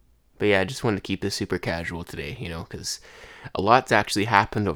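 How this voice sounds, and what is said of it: Usual voice. Nothing is said of it.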